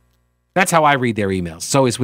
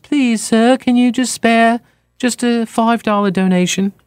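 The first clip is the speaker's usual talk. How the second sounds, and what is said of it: Put-on British accent, pleading. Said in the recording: “with that little British accent, like Oliver”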